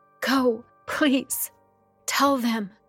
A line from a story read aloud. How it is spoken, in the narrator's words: She pleaded